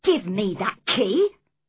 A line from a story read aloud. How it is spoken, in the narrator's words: cried Cathy angrily